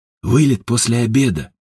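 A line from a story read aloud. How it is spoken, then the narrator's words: Muttering. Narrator (Russian): пробормотал Ажуров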